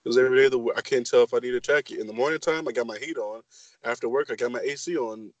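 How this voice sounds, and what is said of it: Sick-sounding voice. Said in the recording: “I sound sick as fuck, because I am sick as fuck”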